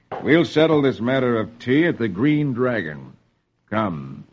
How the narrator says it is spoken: Paul says grimly

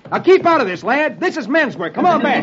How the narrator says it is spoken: Roy shouts

